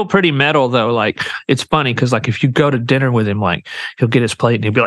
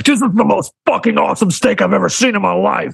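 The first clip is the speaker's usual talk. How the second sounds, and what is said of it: Imitates another person's voice. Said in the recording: “really good impression”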